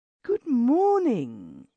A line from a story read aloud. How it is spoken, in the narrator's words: she cried in her sweet, affected drawl